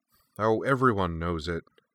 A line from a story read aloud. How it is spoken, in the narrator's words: Lakpa replied